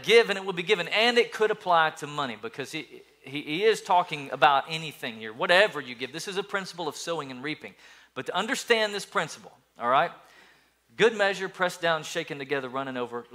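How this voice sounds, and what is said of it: Loud preacher voice. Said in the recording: “Loud, right? ... that's my good preacher voice right there”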